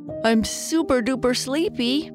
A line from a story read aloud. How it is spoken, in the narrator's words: Papa Bear said as he covered his mouth while he yawned